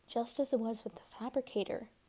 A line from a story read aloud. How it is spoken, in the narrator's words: murmured the merchant